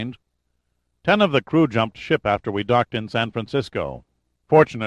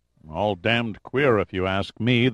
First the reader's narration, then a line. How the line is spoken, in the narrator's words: the second officer grunted